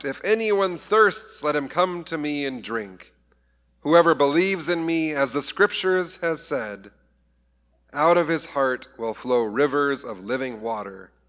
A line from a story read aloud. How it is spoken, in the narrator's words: Jesus stood up and he cried out